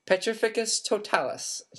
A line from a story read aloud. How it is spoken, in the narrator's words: she cried